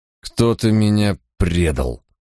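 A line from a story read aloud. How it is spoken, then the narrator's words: Through gritted teeth. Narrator (Russian): процедил Кромвель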